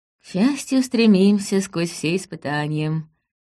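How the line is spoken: Purring. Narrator (Russian): промурлыкала Алаис

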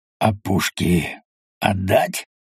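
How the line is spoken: Hoarse rasp. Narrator (Russian): прохрипел Бутурлин

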